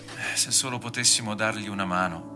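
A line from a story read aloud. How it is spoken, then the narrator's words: Sighing. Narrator (Italian): ha sospirato Guido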